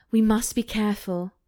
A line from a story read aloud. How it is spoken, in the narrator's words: panted